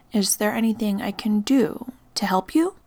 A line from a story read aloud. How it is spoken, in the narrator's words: I asked gently